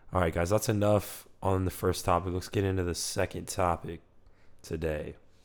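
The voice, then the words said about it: Bad-sounding, damaged voice. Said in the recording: “sorry about my voice. It's just, it's horrible right now. It's very horrible ... I don't even know what I sound like right now, but not good”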